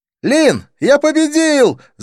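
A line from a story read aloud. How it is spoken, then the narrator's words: Breathless excited yell. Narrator (Russian): завопил подбежавший Навин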